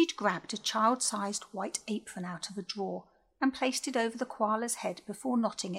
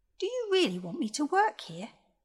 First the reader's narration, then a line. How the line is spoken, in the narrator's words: beamed the koala happily